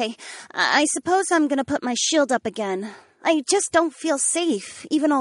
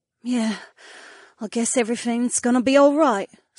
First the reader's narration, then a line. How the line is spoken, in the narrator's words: Sienna sighed